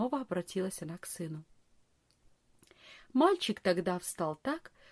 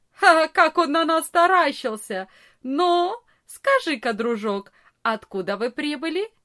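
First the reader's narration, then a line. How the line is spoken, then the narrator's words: Loud laugh, big boy. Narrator (Russian): самый большой из ребят громко не засмеялся и не сказал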